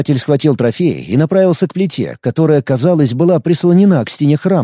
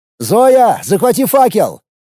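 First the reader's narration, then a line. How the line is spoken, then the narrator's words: Shout. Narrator (Russian): крикнул Филипп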